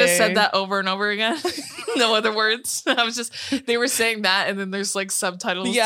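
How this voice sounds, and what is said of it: Usual voice. Nothing is said of it.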